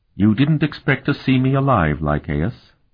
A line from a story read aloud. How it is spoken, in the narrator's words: she asked in a deadly tone